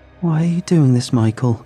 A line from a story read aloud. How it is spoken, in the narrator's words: whined